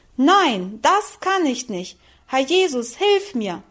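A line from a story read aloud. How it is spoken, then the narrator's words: Loud desperate cry. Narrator (German): rief sie laut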